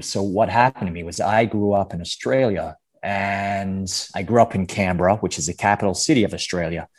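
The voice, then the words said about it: Put-on American accent. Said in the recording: “can you do a an American accent for me? ... American accent, ... sure. ... Let's hear this.”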